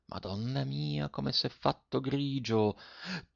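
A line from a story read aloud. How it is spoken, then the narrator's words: Quietly. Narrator (Italian): disse piano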